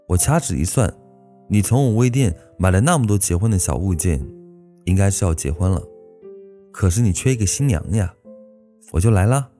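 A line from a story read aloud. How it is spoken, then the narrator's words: Laughing. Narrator (Chinese): 大喜笑着说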